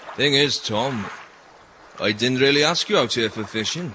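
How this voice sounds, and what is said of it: Alluring regional accent. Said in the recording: “Your accent is quite alluring”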